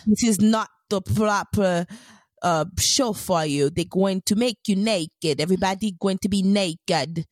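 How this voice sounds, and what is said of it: Attempted mixed British-style accent. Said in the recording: “I don't know if I'm making the accent the properly. No, I'm trying to mix British with whatever accent they have.”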